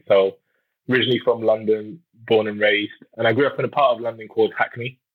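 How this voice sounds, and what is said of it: English accent from London. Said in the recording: “with your accent ... as I'm sure you've guessed, I grew up in England”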